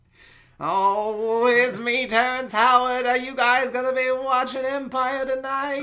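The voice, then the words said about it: Bad Terrence Howard impression. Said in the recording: “terrible Terrence Howard impression”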